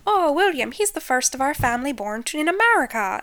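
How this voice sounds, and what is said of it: High-pitched Irish accent imitation. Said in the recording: “Her little Irish accent is... her voice gets really high-pitched”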